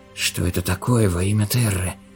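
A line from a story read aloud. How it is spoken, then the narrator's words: Whisper. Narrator (Russian): прошептал Андерс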